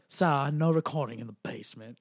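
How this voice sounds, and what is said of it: Poor Hungarian accent, sounds British. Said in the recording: “Do your best accent. ... Hungarian. ... that was terrible because that was British. ... that was terrible. I'm not good. I'm not an accent person.”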